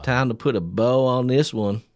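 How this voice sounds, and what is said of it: Put-on Southern US accent. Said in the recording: “You do a southern accent and say it. ... See, it's good.”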